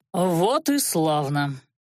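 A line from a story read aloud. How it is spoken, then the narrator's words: Satisfied grunt. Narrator (Russian): Анхайлик удовлетворенно хмыкнул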